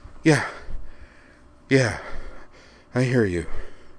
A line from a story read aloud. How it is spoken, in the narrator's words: panted